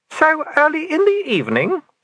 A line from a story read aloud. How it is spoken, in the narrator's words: said madam, and laughed again